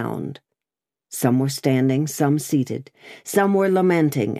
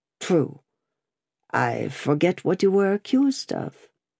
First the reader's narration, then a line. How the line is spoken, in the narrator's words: He murmured for answer